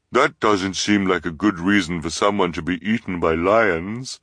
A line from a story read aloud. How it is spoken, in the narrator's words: Violet said carefully, in her disguised voice